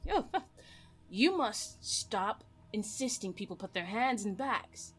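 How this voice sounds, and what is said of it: Put-on character accent. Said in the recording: “sorry, my accent.”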